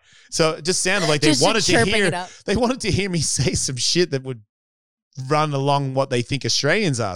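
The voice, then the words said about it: Australian accent. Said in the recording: “my accent. The accent was killing ... taking on your accent”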